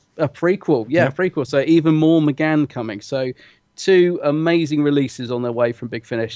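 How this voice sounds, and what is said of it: Excited, gushing voice. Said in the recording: “you can probably tell from my voice, I'm kind of gushing a little bit. I'm really, really excited”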